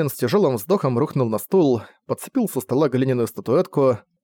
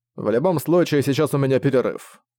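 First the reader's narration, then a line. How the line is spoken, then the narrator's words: Plain. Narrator (Russian): сказал Дэймон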